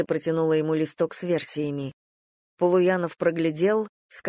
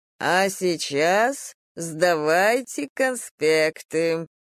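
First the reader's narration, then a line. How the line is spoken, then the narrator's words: Nasty mimicking teacher voice. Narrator (Russian): противным голосом проговорил он, подражая, видимо, какому-то преподавателю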